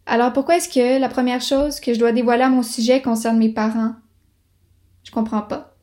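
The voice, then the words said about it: Quebec French accent. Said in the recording (French): “je suis née à Montréal et que j'ai grandi à Québec ... je parle français d'ici avec un accent d'ici”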